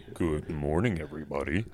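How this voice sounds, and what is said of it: Put-on radio announcer voice. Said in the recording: “put on my voice, too ... Is that your radio voice? ... That's my radio voice”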